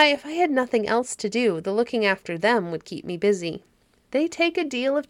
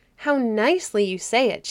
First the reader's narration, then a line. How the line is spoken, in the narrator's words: she exclaimed